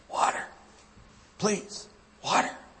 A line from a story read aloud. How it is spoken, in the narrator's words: the man whispered through parched and cracked lips